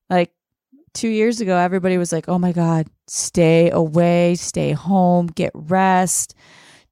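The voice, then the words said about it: Sick-sounding voice. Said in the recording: “I didn't pick up on how you sounded over the phone, but being on here, I can hear it. You sound so sickly.”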